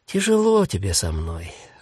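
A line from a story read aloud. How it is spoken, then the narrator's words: Sighing old woman. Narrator (Russian): вздохнула старуха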